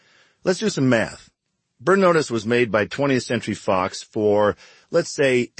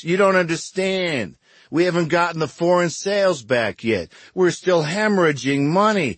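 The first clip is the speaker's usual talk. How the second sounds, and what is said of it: Imitates a lawyer's voice. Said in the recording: “That's a pretty good lawyer imitation”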